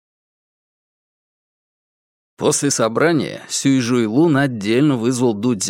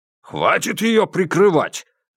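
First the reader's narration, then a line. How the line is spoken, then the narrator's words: Harsh bark. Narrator (Russian): рявкнул Сюй Жуйлун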